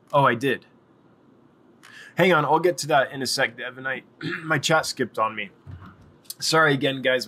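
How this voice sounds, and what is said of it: Rough, tired voice. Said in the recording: “My voice is a little rough. I'm exhausted.”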